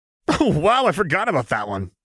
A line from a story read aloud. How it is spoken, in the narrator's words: Jinx said with a cackle